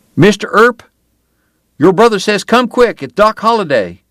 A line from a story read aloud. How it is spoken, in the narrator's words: Will Eberhardt and one of the Riney boys ran to the church yelling